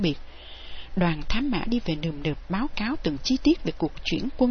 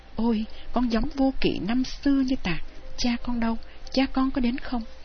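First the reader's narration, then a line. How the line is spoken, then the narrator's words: Joyful old man's cry. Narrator (Vietnamese): Dư Liên Châu ông mừng rỡ kêu lên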